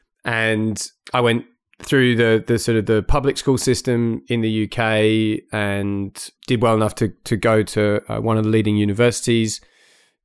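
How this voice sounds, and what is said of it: Blended British-Australian accent. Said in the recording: “accent's a little bit sort of blended because I grew up in the UK, but then I've had really most of my professional working life here ... here in Australia”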